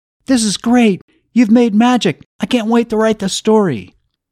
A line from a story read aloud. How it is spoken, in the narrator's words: Flynn shouted above the noise